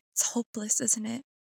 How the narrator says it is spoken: She whispered

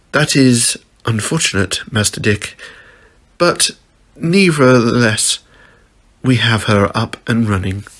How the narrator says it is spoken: Alfred said sadly

